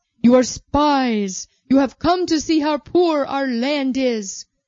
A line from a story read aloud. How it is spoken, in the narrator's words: Joseph raised his voice